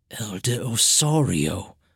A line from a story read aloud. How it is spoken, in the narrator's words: Tireno whispered, his face still radiating disbelief